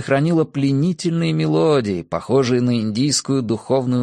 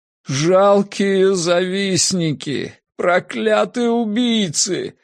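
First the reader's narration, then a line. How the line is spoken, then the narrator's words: Sobbing. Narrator (Russian): рыдал Фентрис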